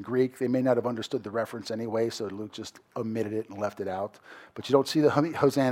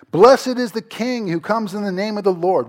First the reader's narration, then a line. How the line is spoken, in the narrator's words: they were shouting